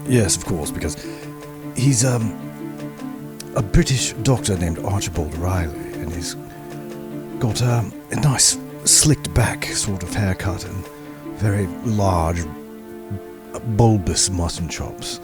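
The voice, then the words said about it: Weak attempt at posh British accent. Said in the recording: “the poshest British accent I can pull off, but I am not particularly good at it ... It's twisted his accent a bit.”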